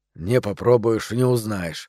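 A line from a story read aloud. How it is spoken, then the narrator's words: Mutter. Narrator (Russian): пробормотал он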